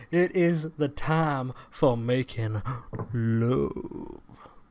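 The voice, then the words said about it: Put-on sexy voice. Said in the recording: “I had to use my sexy voice.”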